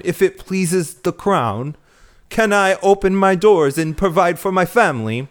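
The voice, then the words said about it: Put-on unidentified accent. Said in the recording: “I don't know what accent that was”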